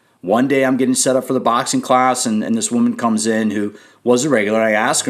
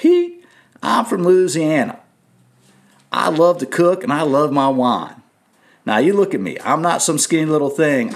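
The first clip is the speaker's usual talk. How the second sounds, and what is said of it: Imitated Southern US accent. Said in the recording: “now she's from the South. I'm not going to do her accent right, but I'm going to attempt to repeat it.”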